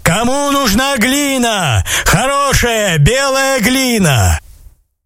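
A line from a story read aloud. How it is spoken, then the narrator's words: Man shouting in street. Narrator (Russian): человек на улице закричал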